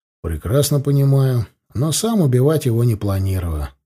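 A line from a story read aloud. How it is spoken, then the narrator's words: Calm reply. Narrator (Russian): спокойно ответил я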